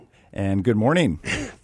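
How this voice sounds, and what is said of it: Polished radio announcer voice. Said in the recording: “that's a good radio voice.”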